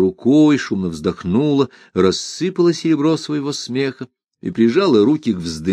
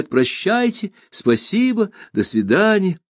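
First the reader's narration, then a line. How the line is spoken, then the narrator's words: Calling after someone. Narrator (Russian): крикнула вслед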